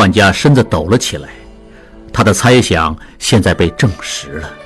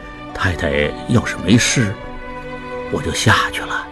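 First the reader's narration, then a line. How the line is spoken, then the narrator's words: Low voice. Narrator (Chinese): 他低声说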